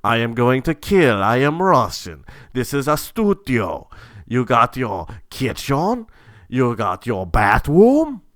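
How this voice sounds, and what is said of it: Poor put-on Russian accent. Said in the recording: “I cannot maintain a fucking Russian... This is like hurting my throat. I'm terrible at these accents.”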